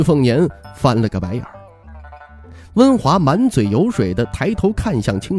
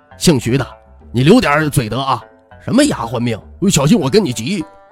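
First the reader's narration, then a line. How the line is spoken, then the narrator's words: Angry. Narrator (Chinese): 温华怒道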